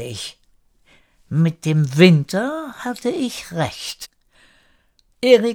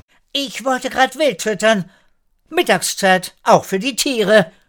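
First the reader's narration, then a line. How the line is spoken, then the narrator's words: Calling out. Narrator (German): rief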